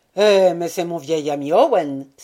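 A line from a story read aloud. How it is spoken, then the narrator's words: Exclaimed. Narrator (French): s'écria Robert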